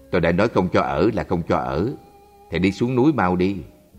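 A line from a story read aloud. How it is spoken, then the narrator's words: Cold, stern. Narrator (Vietnamese): thầy tri khách ... vẻ mặt lạnh lùng, nghiêm khắc nói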